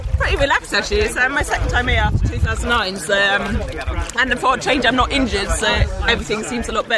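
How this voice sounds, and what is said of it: Mixed accent. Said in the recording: “you've got the kind of mixed kind of accents happening”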